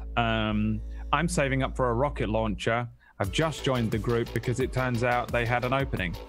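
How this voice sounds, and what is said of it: Put-on Irish accent. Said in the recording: “I apologize for my Irish accent right now to anyone who's Irish and is offended by it”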